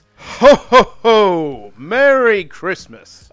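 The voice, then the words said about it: Santa voice, weakening on second phrase. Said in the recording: “give me your Santa voice... it sounded good on the ho ho ho, but then when you said Merry Christmas, that's when it lost you. You sounded like a weak little man.”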